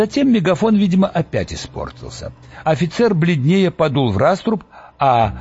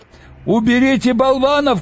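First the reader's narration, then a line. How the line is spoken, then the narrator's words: Male shouting. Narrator (Russian): кричал он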